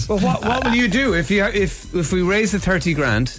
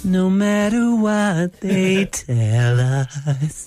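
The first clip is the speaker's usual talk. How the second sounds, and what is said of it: Imitates another person's singing voice. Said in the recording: “I can do a reasonable Stephen Gately impression. ... He's got it, in fairness.”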